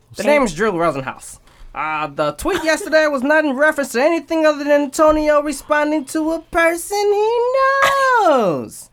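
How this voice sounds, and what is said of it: Drew Rosenhaus impression, shifting accent. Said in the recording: “I got the Brooklyn accent now... That is not a Brooklyn accent... you have like five different accents... It just keeps changing.”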